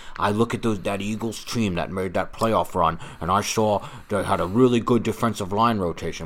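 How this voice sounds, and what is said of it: Weak put-on Boston accent. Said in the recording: “it's not a good Boston accent. ... It's not a good Boston accent.”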